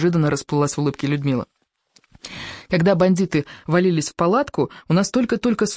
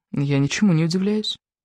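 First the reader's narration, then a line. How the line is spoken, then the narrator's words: Sighing. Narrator (Russian): вздохнула Ева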